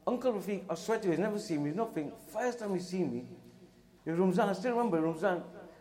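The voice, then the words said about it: English accent. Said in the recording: “obviously you can tell by the English accent”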